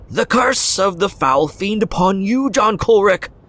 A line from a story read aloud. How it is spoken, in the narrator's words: she screamed